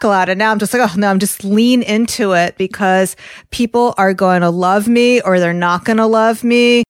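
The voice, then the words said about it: Strong New York accent. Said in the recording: “I have a very strong New York accent.”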